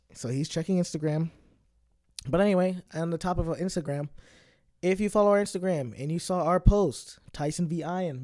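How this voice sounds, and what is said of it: Hoarse scratchy voice. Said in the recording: “my voice is really bad right now. I was screaming last night. Sorry if it's a little scratchy.”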